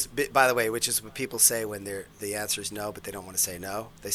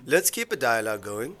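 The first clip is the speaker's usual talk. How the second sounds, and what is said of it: Poor attempt at a German accent. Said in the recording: “that wasn't a good German accent.”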